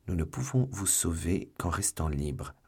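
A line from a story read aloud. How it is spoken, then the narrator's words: Quick low reply. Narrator (French): répondit rapidement et tout bas d'Artagnan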